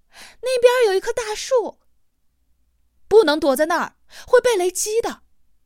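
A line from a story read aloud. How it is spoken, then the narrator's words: Shouting through pain. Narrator (Chinese): 他不顾胳膊和膝盖的疼痛，对江大林喊道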